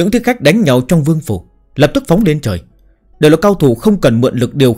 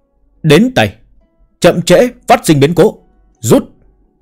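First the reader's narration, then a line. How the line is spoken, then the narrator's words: Old man's loud shout. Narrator (Vietnamese): Người ông lão lớn tiếng hét một tiếng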